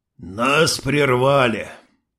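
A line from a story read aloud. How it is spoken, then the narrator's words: Sighing. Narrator (Russian): Вздохнул шериф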